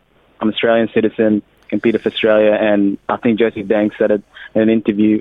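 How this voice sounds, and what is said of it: Australian accent. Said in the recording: “We've got the Australian accent”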